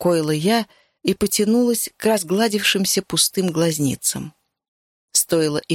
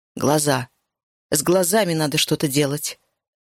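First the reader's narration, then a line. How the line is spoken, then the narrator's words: Gruff mutter. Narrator (Russian): буркнула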